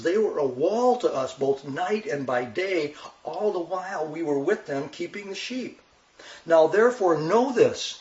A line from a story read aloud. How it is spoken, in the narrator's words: he's saying to Abigail, now he's starting to plead with her